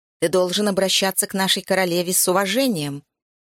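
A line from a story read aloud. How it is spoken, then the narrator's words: Guard barking. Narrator (Russian): рявкнула одна из незрячих стражниц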